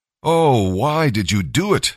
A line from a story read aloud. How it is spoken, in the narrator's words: they groaned